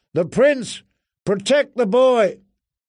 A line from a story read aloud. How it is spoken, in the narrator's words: someone shouted, far away